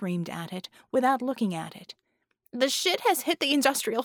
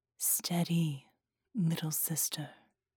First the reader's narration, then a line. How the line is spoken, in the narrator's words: Sera murmured from behind her